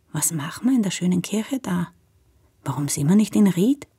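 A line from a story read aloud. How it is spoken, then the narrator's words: Very quiet, almost whispering. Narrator (German): meint ganz leise, fast flüsternd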